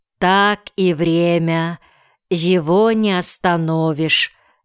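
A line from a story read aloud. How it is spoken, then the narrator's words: Plain. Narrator (Russian): сказала учительница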